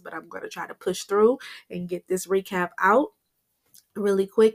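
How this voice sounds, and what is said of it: Congested, unwell-sounding voice. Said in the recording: “my allergies have been bothering me. So please forgive me for the way my voice sounds”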